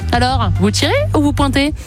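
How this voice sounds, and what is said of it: Put-on regional French accent. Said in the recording (French): “j'ai pas pris du tout le bon accent”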